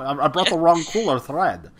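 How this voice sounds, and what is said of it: Imitates a weird foreign accent. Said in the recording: “I'll break into Martin Short's accent in that movie ... It's such a weird accent because sometimes he says ya and sometimes he says yes. So it's I don't know what accent he's doing”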